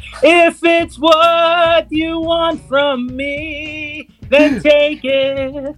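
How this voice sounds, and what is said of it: Imitates a singer, Filipino accent. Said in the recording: “Boy George with a Filipino accent”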